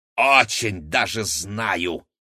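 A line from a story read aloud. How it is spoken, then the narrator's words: Snapped retort. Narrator (Russian): огрызнулась толстушка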